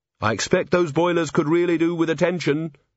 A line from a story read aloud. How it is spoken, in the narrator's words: said Angua sharply